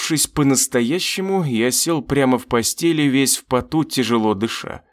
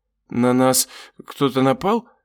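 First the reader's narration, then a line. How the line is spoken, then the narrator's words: Sleepy question. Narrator (Russian): сонно спросила суккуба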